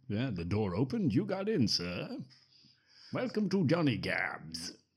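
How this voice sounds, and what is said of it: Put-on British gentleman accent. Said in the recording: “He's not a British gent. ... I don't know why I'm doing that accent.”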